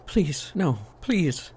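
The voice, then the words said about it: Shrill pleading woman's cry. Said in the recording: “the woman cried out in a shrill voice.”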